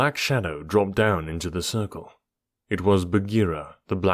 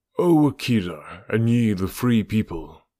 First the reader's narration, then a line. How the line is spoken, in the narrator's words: he purred